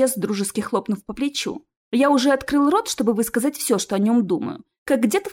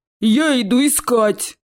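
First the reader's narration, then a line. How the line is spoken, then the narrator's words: Roaring troll. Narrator (Russian): проревел тролль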